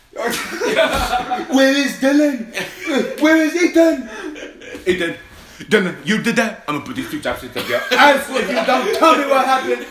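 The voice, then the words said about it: Put-on accent imitating a parent. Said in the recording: “do the accent”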